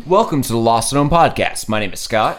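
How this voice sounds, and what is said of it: Radio announcer voice. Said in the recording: “keep this radio voice going again like I promised last week, but I failed 4 words in”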